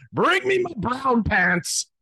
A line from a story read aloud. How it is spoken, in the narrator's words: Alex, the captain, calm as ever, bellowed